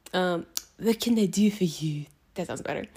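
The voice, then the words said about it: Character voice with Russian accent. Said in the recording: “I feel like his voice already changed already... he's got a Russian accent.”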